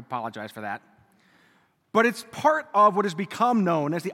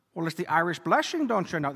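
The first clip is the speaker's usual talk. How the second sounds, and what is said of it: Bad put-on Irish accent. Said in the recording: “I feel like a proud Irishman ... That's a horrible accent.”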